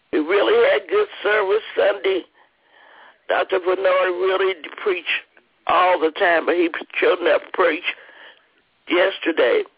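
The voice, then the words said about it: Slightly hoarse voice. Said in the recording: “I'm a little hoarse this morning.”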